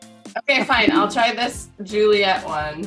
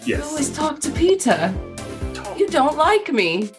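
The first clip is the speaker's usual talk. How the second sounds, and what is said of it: Put-on British accent. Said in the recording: “British accent ... That's pretty good.”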